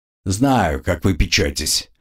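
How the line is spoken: Grumble. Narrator (Russian): проворчал конт

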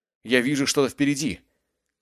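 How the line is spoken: Shouted. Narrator (Russian): крикнул Колфилд

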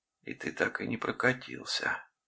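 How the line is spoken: Whisper. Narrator (Russian): прошептала она

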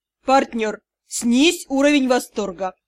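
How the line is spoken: Sharp shout. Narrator (Russian): прикрикнул Юрау

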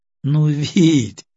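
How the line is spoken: Laughing woman. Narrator (Russian): засмеялась она

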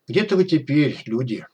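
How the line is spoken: Sad sigh. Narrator (Russian): печально вздохнул док

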